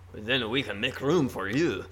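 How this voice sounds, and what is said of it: Put-on accent imitating a character. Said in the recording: “A flawless accent. ... I do this every time we hear the concierge speak”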